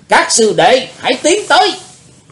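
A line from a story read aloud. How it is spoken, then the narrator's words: Loud shout. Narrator (Vietnamese): Đệ nhất sứ giả quát lớn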